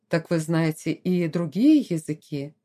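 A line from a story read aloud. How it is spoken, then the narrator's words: Admiring tone. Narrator (Russian): восхищенным тоном продолжал лорд Элтертон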